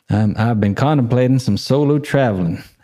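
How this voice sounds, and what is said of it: Weak put-on generic Southern accent. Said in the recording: “Should I do the accent? Can't really do it... can't do accents. Just can't do them... This is just generic Southern.”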